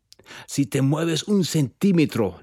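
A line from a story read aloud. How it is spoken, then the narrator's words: Growled. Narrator (Spanish): le gruñó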